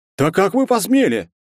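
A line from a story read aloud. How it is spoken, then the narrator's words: Angry shout. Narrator (Russian): закричал Герцен, покраснев от злобы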